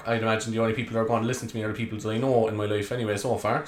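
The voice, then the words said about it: Cork Irish accent. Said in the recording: “if you haven't guessed by the accent already, I'm from Cork.”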